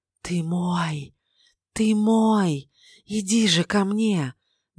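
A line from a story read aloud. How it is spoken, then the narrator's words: Deathly whisper, icy wind. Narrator (Russian): Мертвенным шепотом вырывался из глубины ледяной ветер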